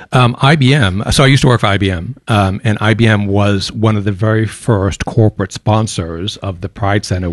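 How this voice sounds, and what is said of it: Softened American accent with twang. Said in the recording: “twang in your accent ... I'm an American, born and raised in Boston, Massachusetts. Used to have a very, very heavy Bostonian accent that has softened over the years ... a bit of a southern twang ... picked up an Aussie accent”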